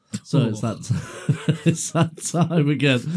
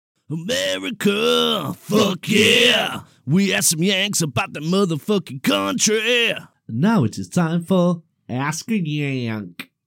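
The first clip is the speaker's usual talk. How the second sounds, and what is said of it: Put-on American accent. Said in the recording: “That was my American accent. ... 6.5 out of 10.”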